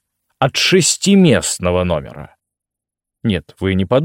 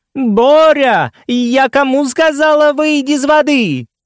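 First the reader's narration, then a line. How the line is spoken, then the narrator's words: Large mother shouting. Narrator (Russian): Его крупная мама кричала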